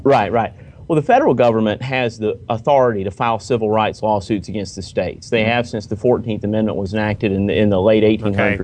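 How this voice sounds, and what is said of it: Southern US (Carolina) accent. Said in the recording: “that Carolina accent ... the Carolina southern accent”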